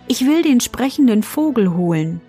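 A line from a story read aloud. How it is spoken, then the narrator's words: Plain. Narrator (German): antwortete sie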